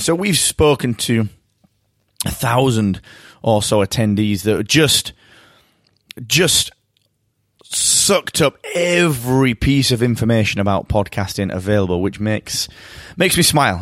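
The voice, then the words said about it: Croaky, strained voice. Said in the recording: “my voice is going a little bit. My voice is getting croaky.”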